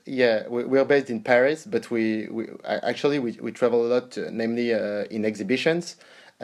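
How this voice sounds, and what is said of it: Slight French accent. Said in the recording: “is French. ... if you hear a little bit of an accent there, that's that's why.”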